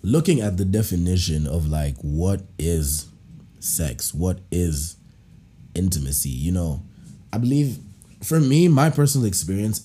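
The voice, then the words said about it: Congested voice from a cold. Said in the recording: “I have a little bit of a cold.”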